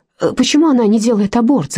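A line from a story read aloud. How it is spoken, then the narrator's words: Shouted. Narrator (Russian): закричал он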